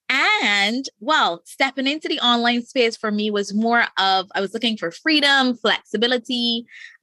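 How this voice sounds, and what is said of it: Noticeable Caribbean accent. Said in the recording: “I can already hear the accent”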